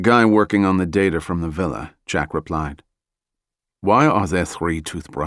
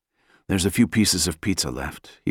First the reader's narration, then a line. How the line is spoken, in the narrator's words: he whispered